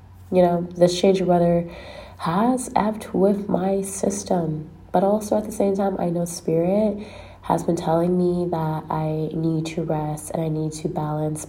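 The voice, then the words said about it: Congested, stuffy voice. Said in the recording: “the way my voice sounds ... I am congested”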